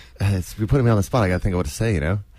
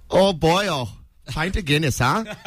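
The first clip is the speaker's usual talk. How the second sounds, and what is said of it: Attempted Irish accent sounding Canadian. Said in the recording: “Irish time. Accent. ... Irish. ... That's Canadian.”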